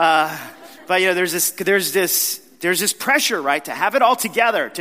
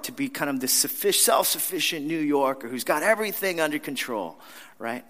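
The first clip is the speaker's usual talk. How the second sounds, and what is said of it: Sudden put-on New York accent. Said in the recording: “sorry about the accent. I don't know where that came from.”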